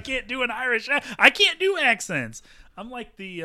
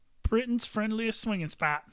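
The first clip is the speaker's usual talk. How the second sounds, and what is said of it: Poor put-on Irish accent. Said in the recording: “That is a horrible Irish accent.”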